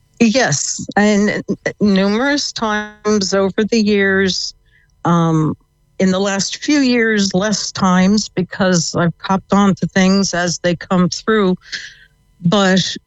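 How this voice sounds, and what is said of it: American accent. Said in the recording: “If you can tell from the accent, ... I came from the States.”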